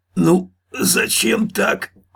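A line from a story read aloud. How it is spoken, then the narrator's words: Wheezing, gasping guard. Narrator (Russian): просипел вертухай, тяжело дыша, захлебываясь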